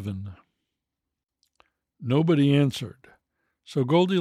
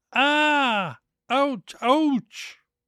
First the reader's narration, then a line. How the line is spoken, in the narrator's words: howled with pain